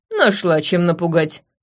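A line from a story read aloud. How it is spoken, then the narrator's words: Snorting old man. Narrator (Russian): фыркнул дед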